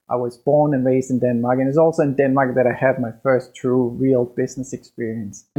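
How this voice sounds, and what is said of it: Danish-accented English. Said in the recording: “my weird accent and so on, and that is my remnants from back in Denmark”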